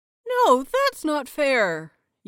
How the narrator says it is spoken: Yuri whined

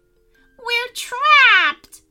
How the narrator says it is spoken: cried the pixies

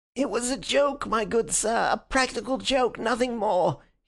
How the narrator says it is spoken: he whined incessantly

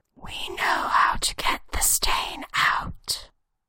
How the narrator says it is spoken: whispers in his ear

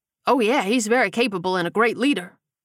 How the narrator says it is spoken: Dutch replied quickly

